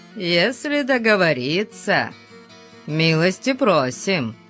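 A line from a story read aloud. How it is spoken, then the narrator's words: Mocking. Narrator (Russian): насмешливо ответил Зарону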